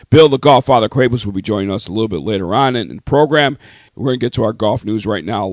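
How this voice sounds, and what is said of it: Hoarse voice. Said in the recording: “As you can hear, I'm still struggling with a hoarse voice, but it's getting better each day.”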